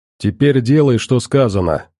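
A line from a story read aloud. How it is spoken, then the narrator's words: Dry, curt. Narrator (Russian): сухо сказал военстал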